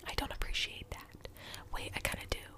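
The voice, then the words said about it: Whispering. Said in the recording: “I don't like the whispering ... Why does my voice sound kind of cool like this?”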